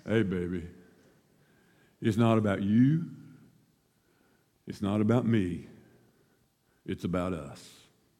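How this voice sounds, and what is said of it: Low, sexy voice. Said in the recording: “Tried to get my low, sexy voice”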